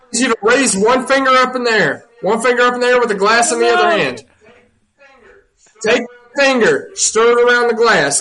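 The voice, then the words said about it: Noticeable regional accent. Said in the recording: “don't make fun of my accent, brother.”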